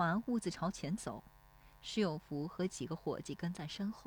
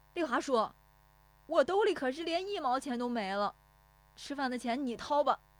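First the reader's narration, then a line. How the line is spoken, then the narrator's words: Calling out while chasing. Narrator (Chinese): 石有福撵着喊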